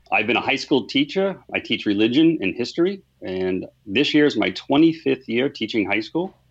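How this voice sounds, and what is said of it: Boston accent. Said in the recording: “Boston area, and you'll hear that in my accent”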